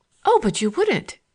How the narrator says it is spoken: she exclaimed

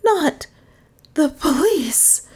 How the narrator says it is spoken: breathed Dale in tones of utter consternation

